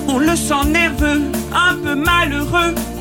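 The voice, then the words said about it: Higher singing voice with slight accent. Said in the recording (French): “vous voulez que je fasse à l'octave du dessus? ... avec la voix de Tina. Il y a un petit accent ... Elle avait un petit accent”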